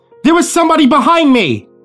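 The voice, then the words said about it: Very loud yelling. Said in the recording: “yelled in an impressively loud voice”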